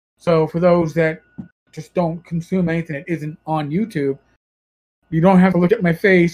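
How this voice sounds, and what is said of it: New York accent. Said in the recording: “My New York accent.”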